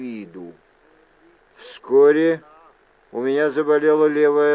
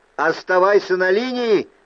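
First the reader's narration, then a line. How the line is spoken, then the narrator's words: Shouted. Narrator (Russian): крикнул я Джарту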